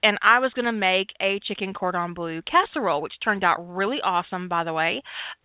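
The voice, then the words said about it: Country accent. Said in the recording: “just how country I am, in case my accent hasn't brought that home for you yet”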